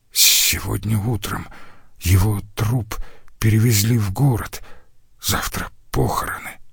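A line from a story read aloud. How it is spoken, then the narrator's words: Whispered, student. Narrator (Russian): прошептал один из студентов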